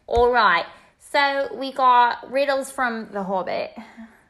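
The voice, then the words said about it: Inconsistent put-on British and Australian accents. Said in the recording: “my accent's not consistent ... I started with Cockney, I went to Australian, and now I'm to posh.”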